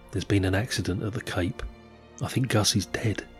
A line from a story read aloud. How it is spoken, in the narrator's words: Wally Shearer's wife Jo stood there crestfallen and said quietly